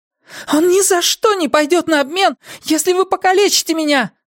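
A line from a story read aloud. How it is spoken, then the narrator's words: Girl shouting. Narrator (Russian): закричала девушка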